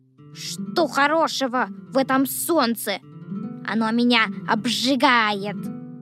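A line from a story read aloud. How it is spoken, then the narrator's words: Grumbling. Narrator (Russian): ворчал дождевой червяк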